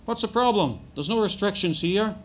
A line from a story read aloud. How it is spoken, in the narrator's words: one man shouted